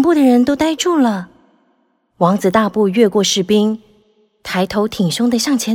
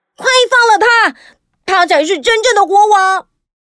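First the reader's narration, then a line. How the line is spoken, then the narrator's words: Shouting. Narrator (Chinese): 汤姆却接着大喊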